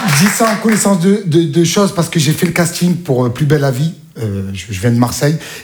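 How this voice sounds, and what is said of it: Marseille French accent. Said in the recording (French): “j'avais l'accent marseillais”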